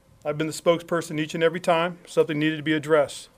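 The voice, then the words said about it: Southern American twang. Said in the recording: “there's my southern twang I've gained in 9 years”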